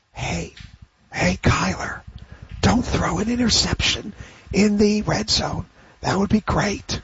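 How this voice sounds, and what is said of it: Whispered voice. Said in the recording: “my impersonation of a quarterback whisperer ... That's my QB whisper impersonation.”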